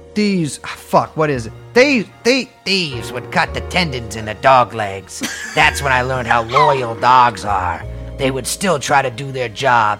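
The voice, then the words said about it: Put-on old-time gangster accent. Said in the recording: “I gotta do my Nazi accent ... why is that a Nazi accent? ... sounds like a just, 1940s gangster or like 1920s.”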